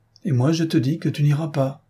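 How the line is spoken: Alarmed tearful cry. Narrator (French): s'écria la jeune femme, incapable de dissimuler plus longtemps ses alarmes et ne pouvant retenir ses pleurs

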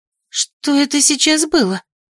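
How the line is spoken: Breathless female exhale. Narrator (Russian): выдохнула Ксанна

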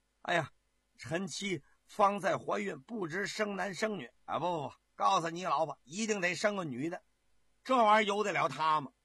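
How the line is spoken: Drunken joking. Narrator (Chinese): 皇上喝醉了酒开玩笑

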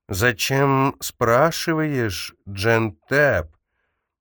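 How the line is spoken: Drawn-out word. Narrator (Russian): Она протянула это слово так, что оно прозвучало как

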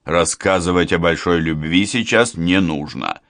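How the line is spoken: Angry bark. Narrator (Russian): сердито гаркнул Гуров

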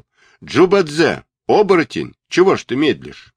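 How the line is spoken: Shout. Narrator (Russian): Сунь-Кун сразу же закричал

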